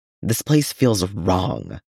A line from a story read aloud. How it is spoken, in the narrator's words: Noel mutters at his shoulder